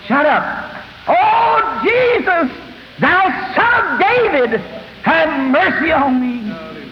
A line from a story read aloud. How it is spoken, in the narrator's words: The rest of them around here hollering also